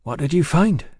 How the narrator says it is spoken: Yancey faltered

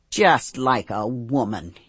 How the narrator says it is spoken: he sneers

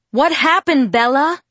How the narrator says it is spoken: Charlie shouted through the door

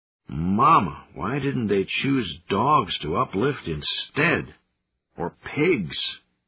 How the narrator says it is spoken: one of them moaned

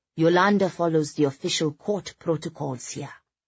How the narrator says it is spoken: he said in a Scandinavian accent

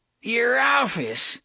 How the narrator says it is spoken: the old bastard cackled

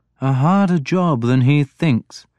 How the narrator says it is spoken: Alfred said dryly

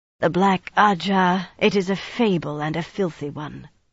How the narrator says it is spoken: sneered, a trifle hoarsely

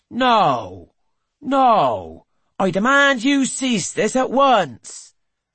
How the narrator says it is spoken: Trevithick is shouting

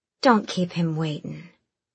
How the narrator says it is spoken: she said coolly

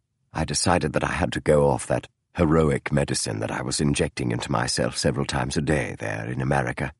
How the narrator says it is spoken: Holmes said softly

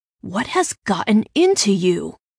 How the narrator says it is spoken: my brother hissed

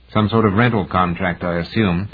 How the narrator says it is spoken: Takahashi said

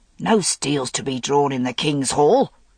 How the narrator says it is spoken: said Kai roughly

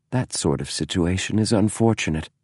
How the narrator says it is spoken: James said softly

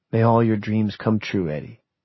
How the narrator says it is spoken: whispered

